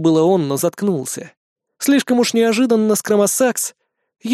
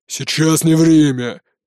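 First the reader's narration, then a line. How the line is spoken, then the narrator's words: Barked. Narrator (Russian): рявкнул Броди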